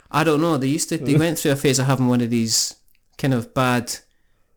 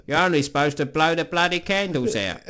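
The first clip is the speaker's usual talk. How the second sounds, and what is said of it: Imitates another person's voice. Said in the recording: “great impression, but also awful”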